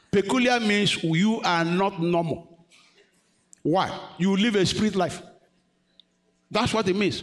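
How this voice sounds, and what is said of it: Non-native English accent. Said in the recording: “my accent is bad”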